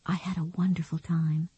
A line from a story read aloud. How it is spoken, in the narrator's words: Beth whispered, wanting him to know she would treasure this day